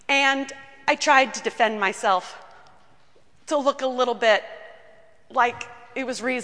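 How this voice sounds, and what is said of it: Usual voice. Nothing is said of it.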